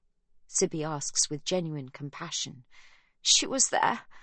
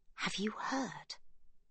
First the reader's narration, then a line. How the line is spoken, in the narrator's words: Rosie whispers